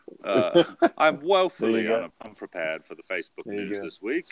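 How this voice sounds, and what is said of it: Put-on English accent. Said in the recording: “You have to say it in an English accent”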